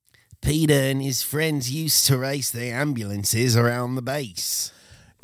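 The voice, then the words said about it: Put-on accent sounding British. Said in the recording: “It's just a British accent, but you say mate”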